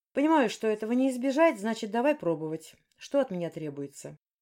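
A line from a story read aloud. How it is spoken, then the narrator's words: Calm. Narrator (Russian): спокойно ответил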